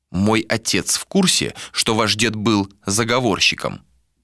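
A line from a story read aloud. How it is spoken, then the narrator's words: Plain question. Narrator (Russian): спросил Адер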